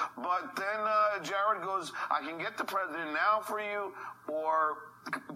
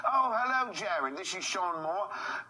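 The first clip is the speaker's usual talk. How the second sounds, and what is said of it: Fake English accent. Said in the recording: “I put on my fake English accent again”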